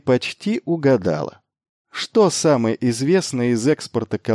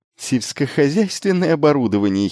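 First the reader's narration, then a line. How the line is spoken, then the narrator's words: Giggling. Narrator (Russian): хихикнул он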